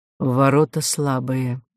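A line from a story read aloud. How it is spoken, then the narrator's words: Quiet. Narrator (Russian): тихо говорил он князю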